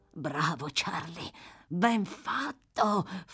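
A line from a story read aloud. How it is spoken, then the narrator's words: Mumbled. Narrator (Italian): farfugliò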